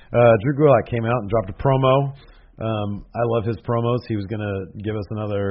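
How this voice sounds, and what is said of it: Strained, nearly lost voice. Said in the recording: “My voice is this close to completely giving out. ... I just felt it in the back of my throat.”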